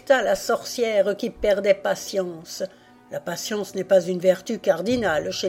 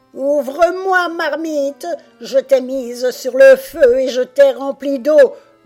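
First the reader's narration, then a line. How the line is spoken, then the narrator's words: Furious witch growling. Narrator (French): gronda la sorcière au bord de l'apoplexie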